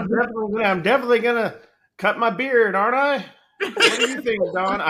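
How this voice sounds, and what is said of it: Usual voice. Nothing is said of it.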